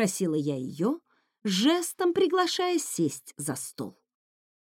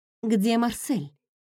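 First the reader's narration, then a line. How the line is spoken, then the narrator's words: Plain. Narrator (Russian): спросила я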